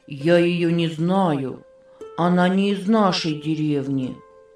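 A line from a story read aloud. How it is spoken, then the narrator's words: Said sadly. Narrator (Russian): печально сказал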